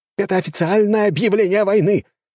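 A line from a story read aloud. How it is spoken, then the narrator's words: Shout. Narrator (Russian): крикнул один из них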